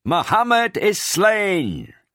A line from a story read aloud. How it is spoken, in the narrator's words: A voice, perhaps that of Ibn Kamiyah himself, was heard to shout